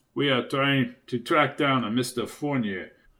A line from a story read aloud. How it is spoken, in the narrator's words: said in a deep voice